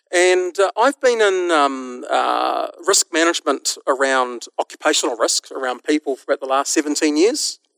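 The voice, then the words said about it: New Zealand accent. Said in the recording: “my funny accent tells you that I'm from a little country called New Zealand”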